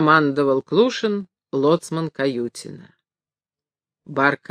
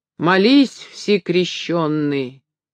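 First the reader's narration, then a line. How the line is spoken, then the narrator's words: Solemn shout. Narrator (Russian): крикнул один рыжий парень торжественным голосом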